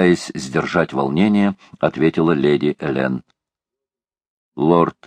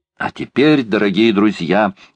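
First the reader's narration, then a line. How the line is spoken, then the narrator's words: Exclaimed. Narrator (Russian): воскликнул Паганель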